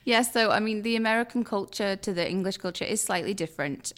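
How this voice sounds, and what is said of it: English accent. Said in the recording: “with your accent, you could probably tell me to go to hell and I'd probably say thank you. I mean, that's the beautiful thing about the English”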